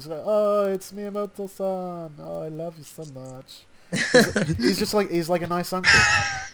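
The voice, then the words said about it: Sounds like a German accent. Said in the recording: “Was that your German accent right there? ... it kind of sounded like that.”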